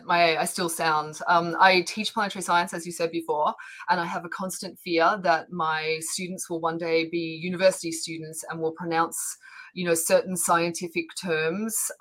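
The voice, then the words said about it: Australian accent. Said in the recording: “I'm Australian ... But I still have an accent.”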